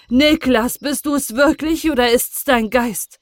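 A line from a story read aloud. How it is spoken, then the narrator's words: Calling out. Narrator (German): rief der Vater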